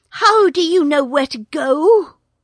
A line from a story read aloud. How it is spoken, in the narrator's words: he panted